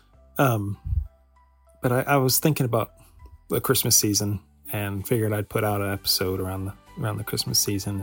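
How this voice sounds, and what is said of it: Congested, slightly sick voice. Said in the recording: “forgive my voice. I've been feeling a little congested, a little under the weather.”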